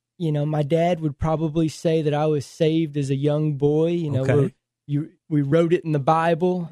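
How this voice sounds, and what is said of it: Texan country accent. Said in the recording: “born and raised Fort Worth, Texas ... raised by some country folk ... You guys hear that in my accent.”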